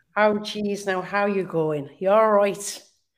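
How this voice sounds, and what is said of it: Put-on Galway Irish accent. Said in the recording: “the Galway Irish accent ... that's kind of my take”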